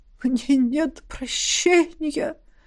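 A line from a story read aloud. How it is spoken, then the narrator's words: Dying tone. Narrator (Russian): Умирающим тоном продолжил Трорин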